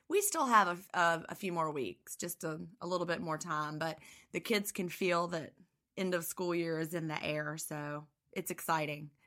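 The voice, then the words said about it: Scratchy, tired voice. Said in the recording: “I've got end of the school year teacher voice, so, you know, I'm tired ... losing my voice ... if I sound a little scratchy”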